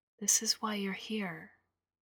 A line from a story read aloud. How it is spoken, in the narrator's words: I said quietly